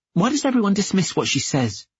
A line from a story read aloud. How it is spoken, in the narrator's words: she snapped